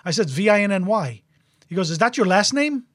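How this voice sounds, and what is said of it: Put-on accent imitating a caller. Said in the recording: “I'm doing a little bit of the accent, so you get the gist.”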